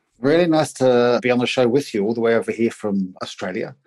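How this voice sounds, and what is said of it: New Zealand accent. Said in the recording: “I'm a Kiwi. This is a Kiwi accent.”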